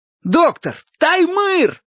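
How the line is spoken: Alarming yell. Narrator (Russian): заорал я таким голосом, что он снова невольно посмотрел на меня с беспокойством

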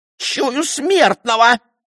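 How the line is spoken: Shrieking. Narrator (Russian): взвизгнула она

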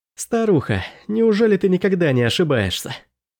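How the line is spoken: Mocking chuckle. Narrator (Russian): Я хохотнул

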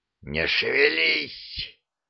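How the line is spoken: Woman hissing. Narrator (Russian): прошипела женщина

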